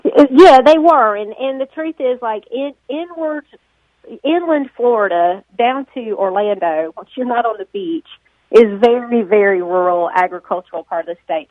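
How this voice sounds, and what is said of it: Southern American accent. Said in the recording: “she's from Nashville, thus the accent ... your parents were Southern people”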